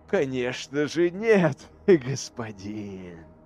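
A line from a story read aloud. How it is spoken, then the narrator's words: Laughing. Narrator (Russian): рассмеялся Тиль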